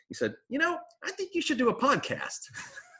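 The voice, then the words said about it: Cartoonish imitation of another person's voice. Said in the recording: “my best imitation of you ... I think that was spot on. It sounded a little more like somewhere between Bart and Lisa”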